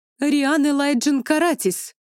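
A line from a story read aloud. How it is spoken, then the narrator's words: Yelled from afar. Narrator (Russian): завопила она со двора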